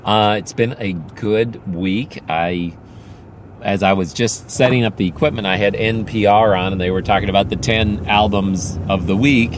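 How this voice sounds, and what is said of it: Hoarse voice from a cold. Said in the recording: “As you can probably hear from my voice, I'm still not quite over the cold. ... I'm just got a little stuff in my throat.”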